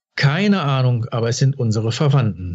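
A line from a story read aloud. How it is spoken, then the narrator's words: Plain, father. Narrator (German): sagte sein Vater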